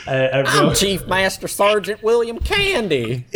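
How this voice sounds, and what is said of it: Squeaky put-on Southern accent. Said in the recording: “an insane Southern accent ... And a very squeaky voice, too. He's very squeaky.”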